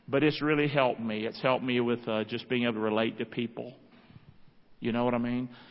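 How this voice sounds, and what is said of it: Rural country accent. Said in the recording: “She laughed at me because of my accent ... My accent ... having that accent that I thought was country bumpkin”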